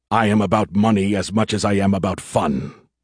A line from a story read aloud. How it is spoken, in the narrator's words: Jates growled